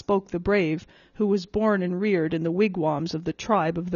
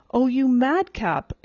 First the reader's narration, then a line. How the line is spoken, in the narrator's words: exclaimed the elder girl